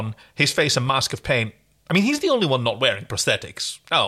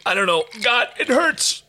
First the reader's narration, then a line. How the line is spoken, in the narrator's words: He groaned, wincing in agony